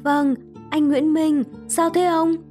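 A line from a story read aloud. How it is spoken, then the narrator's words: Trembling voice. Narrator (Vietnamese): Liên cất giọng run run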